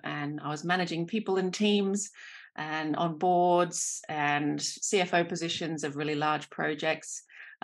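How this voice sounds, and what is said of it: Australian accent. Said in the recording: “I'm an Australian. This is my accent.”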